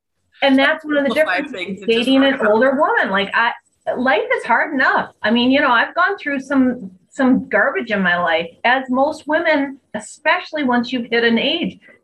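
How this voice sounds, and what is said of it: Upper Midwest accent. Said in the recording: “Your accent, it sounds like Minnesota ... I'm Wisconsin”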